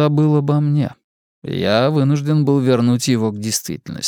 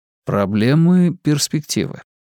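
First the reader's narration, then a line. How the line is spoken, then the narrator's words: Gentle reminder. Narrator (Russian): мягко напомнил я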